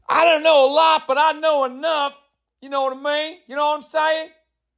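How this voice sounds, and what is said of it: Put-on Southern US accent. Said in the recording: “I don't know why I've adopted this southern accent, but it's fucking fun ... It's just fun to act like that in that accent.”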